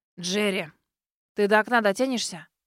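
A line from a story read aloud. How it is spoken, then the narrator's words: Hissing old man. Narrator (Russian): прошипел дед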